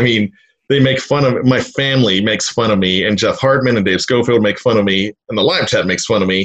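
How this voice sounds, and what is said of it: Usual voice. Nothing is said of it.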